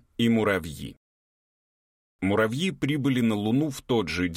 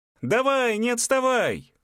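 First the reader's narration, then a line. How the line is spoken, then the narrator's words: Yelling. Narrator (Russian): Орала она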